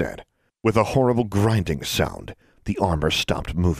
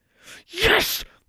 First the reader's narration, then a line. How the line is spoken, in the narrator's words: Alexandra exclaimed